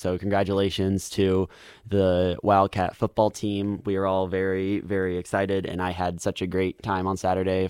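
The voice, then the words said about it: Slightly scratchy, hoarse voice. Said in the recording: “my voice is a little scratchy today. I have screamed my heart out over the weekend”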